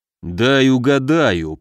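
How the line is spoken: Grumbling. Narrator (Russian): проворчал Муром

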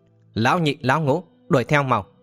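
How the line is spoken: Harsh, clipped voice. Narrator (Vietnamese): Lão gằn giọng

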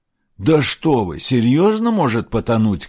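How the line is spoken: Shouting over the sea. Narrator (Russian): крикнул Аларих, стараясь перекричать шум моря

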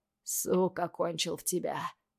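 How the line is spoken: Hoarse. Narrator (Russian): хриплю я

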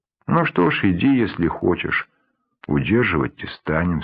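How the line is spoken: Plain. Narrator (Russian): сказал Кадыр

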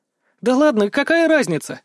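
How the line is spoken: Cheerful laugh. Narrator (Russian): Вдруг весело рассмеялась Шонта

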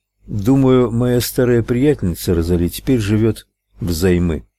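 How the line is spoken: Plain. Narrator (Russian): ответил Ральф

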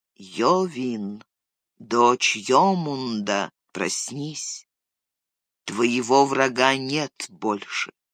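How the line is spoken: Quiet calling. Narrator (Russian): Он негромко позвал

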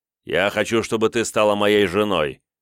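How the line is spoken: Sharp interruption. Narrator (Russian): резко перебил Мендовк

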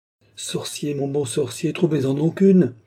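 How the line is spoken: Cried out. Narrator (French): s'écria madame du Barry

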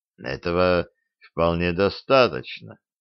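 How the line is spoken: Calm reply. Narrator (Russian): спокойно ответил Джоз

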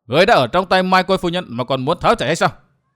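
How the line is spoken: Old woman shouting loudly. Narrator (Vietnamese): Mụ lớn tiếng quát

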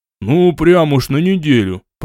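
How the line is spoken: Grumbling. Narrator (Russian): проворчал Арлом

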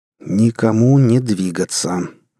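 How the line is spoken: Sinister muttering through teeth. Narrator (Russian): зловеще процедил второй

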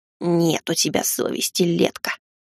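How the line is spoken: Grumbling. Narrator (Russian): проворчал усатый

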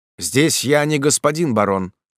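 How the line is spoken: Firm interrupting voice. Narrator (Russian): прервал его ординер твердым голосом

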